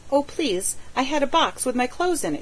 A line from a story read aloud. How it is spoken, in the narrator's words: she cried